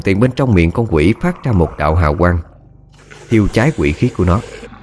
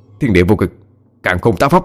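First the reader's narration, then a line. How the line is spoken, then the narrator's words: Shouting. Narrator (Vietnamese): Cậu hét lên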